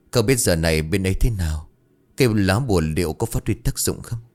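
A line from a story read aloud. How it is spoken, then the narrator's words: Muttered. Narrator (Vietnamese): Hoa lẩm bẩm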